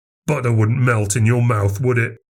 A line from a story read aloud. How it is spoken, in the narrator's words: Max snarled